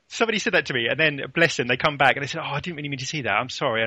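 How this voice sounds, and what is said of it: English accent. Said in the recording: “that English accent drives me spare ... I can't really change my accent.”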